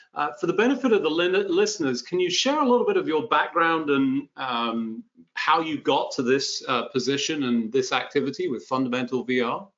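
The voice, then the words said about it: British accent. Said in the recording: “our dulcet tones because we've both got those delightful British accents”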